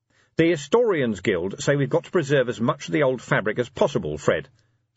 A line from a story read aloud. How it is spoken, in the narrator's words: said Vimes